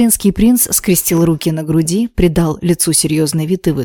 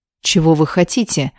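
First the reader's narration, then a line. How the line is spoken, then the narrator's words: Irritated, impatient question. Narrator (Russian): раздраженно спросил лэр Рейнольдс, желая поскорее избавиться от ночного гостя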